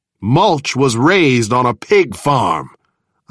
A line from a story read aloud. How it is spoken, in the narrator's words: I replied angrily